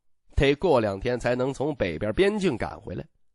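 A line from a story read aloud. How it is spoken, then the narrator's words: Laughing. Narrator (Chinese): 徐凤年笑道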